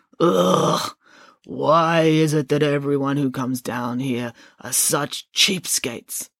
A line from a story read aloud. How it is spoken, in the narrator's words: The boatman groaned